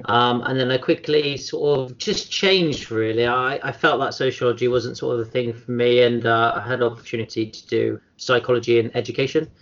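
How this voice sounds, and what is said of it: Bristol English accent. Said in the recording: “I grew up in sort of Bristol, as you can probably tell from my accent.”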